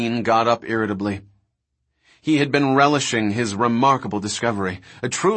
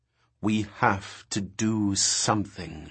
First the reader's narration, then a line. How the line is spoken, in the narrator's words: she said, speaking slowly as if he were a child